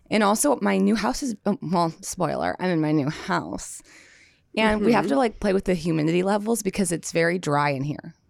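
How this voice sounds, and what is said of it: Raspy, hoarse voice. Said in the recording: “raspy ... you're raspy ... I'm losing my voice ... you don't sound good ... sound terrible”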